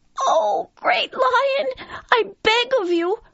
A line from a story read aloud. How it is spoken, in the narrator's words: cried the frightened mouse